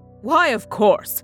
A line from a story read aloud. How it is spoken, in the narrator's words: laughed